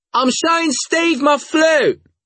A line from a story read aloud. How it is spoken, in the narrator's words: I yelled